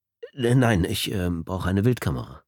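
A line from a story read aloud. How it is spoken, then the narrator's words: Plain. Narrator (German): sagte der Kunde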